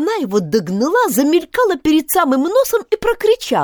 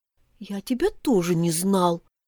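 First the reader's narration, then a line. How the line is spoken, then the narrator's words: Grumbling child. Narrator (Russian): пробурчал малыш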